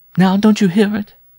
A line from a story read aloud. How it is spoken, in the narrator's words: cried with an inarticulate gasp